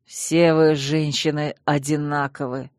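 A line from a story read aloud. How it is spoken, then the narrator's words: Hissing. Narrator (Russian): прошипел герцог, неправильно истолковав мой нервный смех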